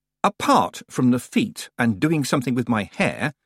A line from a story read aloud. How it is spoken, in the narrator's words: said Tiffany sharply